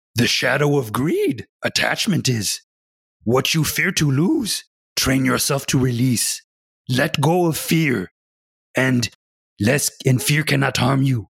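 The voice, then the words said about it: Yoda impression. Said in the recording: “I actually want to do them in Yoda's voice. My best impression of Yoda's voice”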